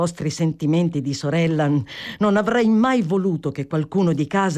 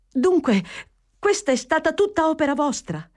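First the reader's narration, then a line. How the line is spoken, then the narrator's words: Exclaiming. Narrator (Italian): esclamò Fanny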